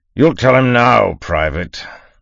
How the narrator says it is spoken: the Duke of Rakestraw thundered, his voice a hammer poised to fall

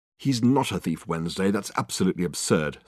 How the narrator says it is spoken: snapped Richard, instantly getting drawn into it in spite of his resolution not to

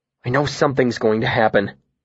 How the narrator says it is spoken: I said anxiously

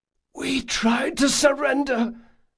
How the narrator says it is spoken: the crewman gasped

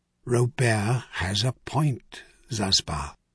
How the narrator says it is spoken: Zamsin Trinair put in quietly

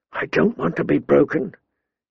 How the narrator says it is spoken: he whispered fiercely

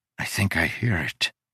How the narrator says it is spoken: Udo whispered

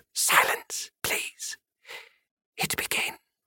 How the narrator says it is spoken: Sid whispered

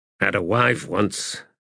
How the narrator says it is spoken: Mathok muttered

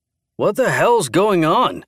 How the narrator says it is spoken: asked, his voice loud and clear

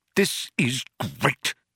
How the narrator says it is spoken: spluttered Arthur

